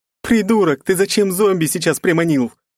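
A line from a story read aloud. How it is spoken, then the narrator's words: Shouting. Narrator (Russian): крикнула она куда-то в воздух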